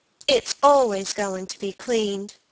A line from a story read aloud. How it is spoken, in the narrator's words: said the boy